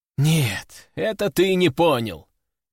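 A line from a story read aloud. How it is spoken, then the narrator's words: Heavy sigh. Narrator (Russian): тяжело вздохнул я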